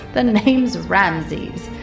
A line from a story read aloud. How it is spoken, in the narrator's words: he chuckled